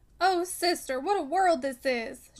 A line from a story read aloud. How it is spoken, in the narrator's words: she exclaimed